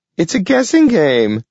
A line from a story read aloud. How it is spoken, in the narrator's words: shrieked the giggling girl